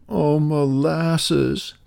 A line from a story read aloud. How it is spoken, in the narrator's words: Peter sobbed